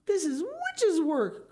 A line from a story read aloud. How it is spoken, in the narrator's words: cried Mr